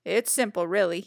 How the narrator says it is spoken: he said

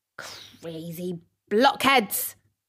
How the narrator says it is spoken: snapped the dwarf

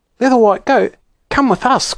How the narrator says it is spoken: cried Fanny

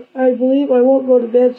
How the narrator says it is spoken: said Ma

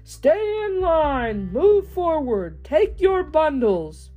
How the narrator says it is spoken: A man was yelling

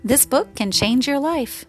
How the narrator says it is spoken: laughed

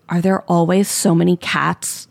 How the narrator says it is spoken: He whispers

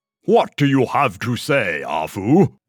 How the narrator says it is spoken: roared King Yinlo

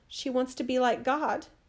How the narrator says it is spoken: cried

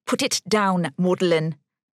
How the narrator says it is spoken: snapped

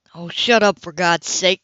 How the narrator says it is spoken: he growled at his victim

